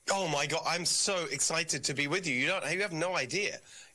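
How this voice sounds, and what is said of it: English accent. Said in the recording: “leaving that country ... England's a total disaster. I still have the accent”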